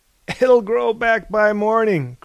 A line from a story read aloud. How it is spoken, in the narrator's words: cried Thales